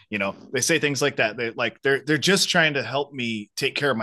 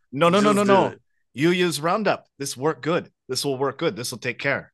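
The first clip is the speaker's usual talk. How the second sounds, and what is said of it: Imitated foreign accent. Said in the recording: “I shouldn't do the accent”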